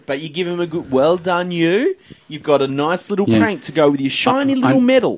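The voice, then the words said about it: Patronizing voice for talking to preschoolers. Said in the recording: “you were putting on your preschooler accent there, when you're like talking to the rugby league.”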